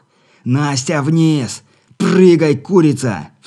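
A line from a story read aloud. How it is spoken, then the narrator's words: Shouted. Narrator (Russian): выкрикнул он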